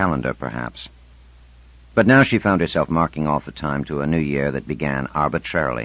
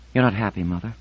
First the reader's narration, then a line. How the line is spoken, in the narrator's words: Marlena said solemnly